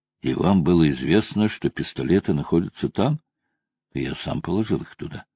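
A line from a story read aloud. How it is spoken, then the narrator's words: Calm, professor. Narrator (Russian): профессор спокойным голосом произнес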